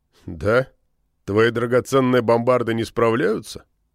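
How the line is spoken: Smirking grunt. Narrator (Russian): хмыкнул

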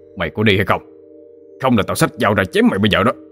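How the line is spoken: Cursing angry shout. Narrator (Vietnamese): Gã chửi thề một tiếng rồi quát

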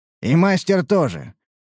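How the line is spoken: Smirking grunt. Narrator (Russian): хмыкнул Мрадиш

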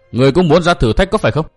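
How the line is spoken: Loud demanding question. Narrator (Vietnamese): Tiểu Kỳ lớn tiếng quát hỏi

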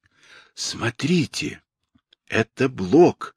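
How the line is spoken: Sudden whisper. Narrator (Russian): внезапно прошептал Уголек

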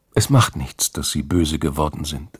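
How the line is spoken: Plain. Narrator (German): sagte

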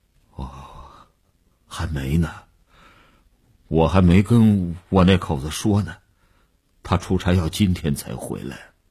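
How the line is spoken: Weak, trembling voice. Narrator (Chinese): 李大公的声音已经抽空了底气，虚虚地发着颤

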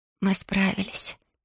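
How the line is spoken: Hoarse mutter. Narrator (Russian): сипло пробормотала Алиана

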